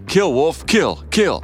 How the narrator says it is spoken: cops laughing and yelling

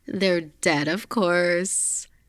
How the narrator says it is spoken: Tony laughed

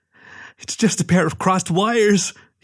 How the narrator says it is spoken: he whined, before breaking down into sobs

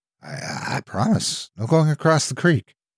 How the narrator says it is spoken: I said timidly

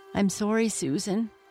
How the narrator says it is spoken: said sadly

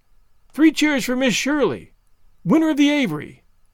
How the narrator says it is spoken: somebody called out

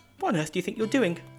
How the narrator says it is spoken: he snapped

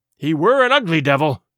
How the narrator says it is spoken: cried a third pirate with a shudder

